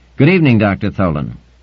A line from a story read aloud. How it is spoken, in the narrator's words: saying firmly